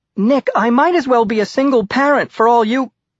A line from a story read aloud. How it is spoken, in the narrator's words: Maddie shouting into the cell phone